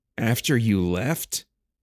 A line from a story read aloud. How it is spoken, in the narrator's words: Miklos laughed, his breaths still heaving from their fight